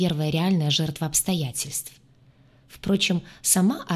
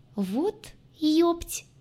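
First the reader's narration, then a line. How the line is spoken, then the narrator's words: Startled squeak. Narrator (Russian): Только и пискнула я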